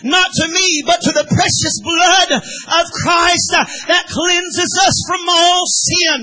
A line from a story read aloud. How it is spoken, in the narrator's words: my friend Wesley exclaimed